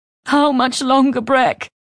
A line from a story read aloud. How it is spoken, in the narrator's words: Winnith sobbed, her face against the bed